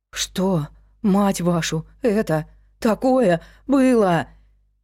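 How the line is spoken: Frightened breathless gasp. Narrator (Russian): выдохнула Кейси Кокс, испуганно

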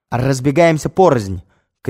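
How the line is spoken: Shout. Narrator (Russian): крикнул Загорецкий

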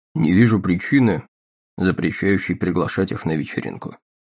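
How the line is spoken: Cold tone. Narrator (Russian): ответил холодным тоном

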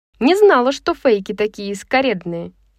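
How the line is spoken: Snide smirk. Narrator (Russian): ехидно усмехнулась Брайс

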